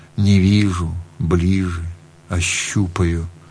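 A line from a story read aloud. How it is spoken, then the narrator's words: Barely audible. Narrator (Russian): Отец выговорил чуть слышно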